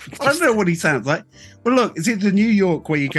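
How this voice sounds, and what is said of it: Usual voice. Nothing is said of it.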